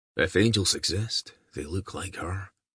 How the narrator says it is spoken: a voice murmured behind him

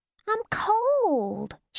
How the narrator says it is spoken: she whined, like any battle-weary 18-year-old

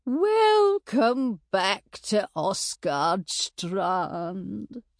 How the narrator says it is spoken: she said in a sugary voice

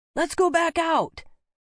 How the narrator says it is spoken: Rowan yelled

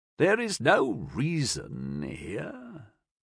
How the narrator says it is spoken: the prior said, his throat dry and raspy with emotion

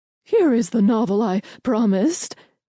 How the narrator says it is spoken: she said, her voice waffling with nerves

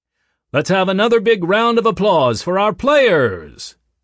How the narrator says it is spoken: boomed the announcer's voice

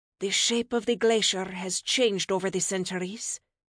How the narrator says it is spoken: she murmured

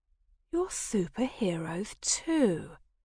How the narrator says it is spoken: murmured

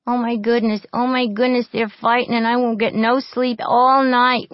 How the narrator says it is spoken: whined Tessie, a pale, frightened girl

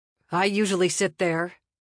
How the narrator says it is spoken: he said coldly

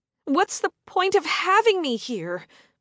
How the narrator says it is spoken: I cried out when he wouldn't say anything

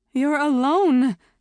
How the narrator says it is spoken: she had gasped, shocked and alarmed

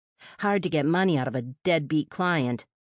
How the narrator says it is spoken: the woman grumbled

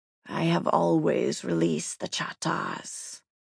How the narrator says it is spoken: the enormous black entity hissed

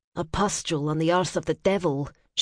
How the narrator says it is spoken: she murmured

